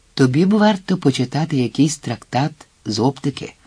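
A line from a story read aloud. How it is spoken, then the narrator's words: Said cheerfully. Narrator (Ukrainian): мовив Вільям весело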